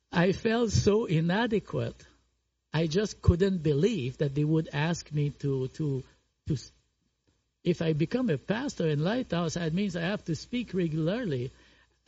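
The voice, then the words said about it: French accent. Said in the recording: “you still hear my French accent”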